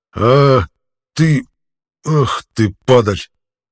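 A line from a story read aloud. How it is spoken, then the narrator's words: Hoarse rasp. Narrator (Russian): прохрипел трибун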